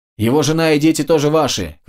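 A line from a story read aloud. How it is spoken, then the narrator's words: Shouted after them. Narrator (Russian): крикнул им вслед Терез Мэй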